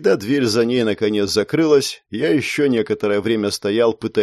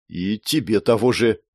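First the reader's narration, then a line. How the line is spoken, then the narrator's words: Choked, strained. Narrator (Russian): выдавил сглотнув новый комок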